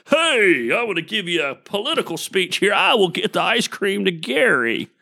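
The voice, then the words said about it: Imitates another person's voice. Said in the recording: “my John Little impression”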